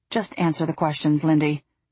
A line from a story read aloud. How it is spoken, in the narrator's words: said, through his teeth